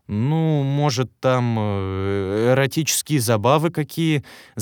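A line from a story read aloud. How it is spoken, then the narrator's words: Stammering, evasive. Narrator (Russian): Запинаясь, начал юлить Александр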